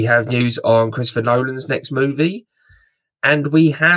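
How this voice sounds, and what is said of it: Usual voice. Nothing is said of it.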